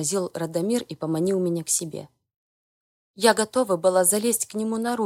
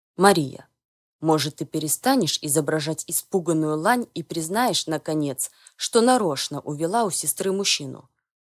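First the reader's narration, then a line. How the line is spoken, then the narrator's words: Father's near growl. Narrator (Russian): Практически прорычал отец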